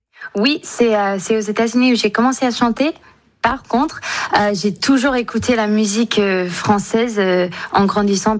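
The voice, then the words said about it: Slight American accent in French. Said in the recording (French): “un tout petit accent ... franco-américaine”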